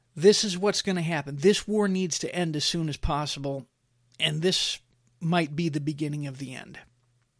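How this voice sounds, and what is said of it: Emotional voice. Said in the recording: “getting a little emotional here”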